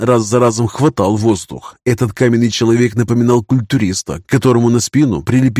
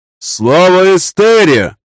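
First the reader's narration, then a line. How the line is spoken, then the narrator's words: Shout. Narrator (Russian): выкрикнул один из телохранителей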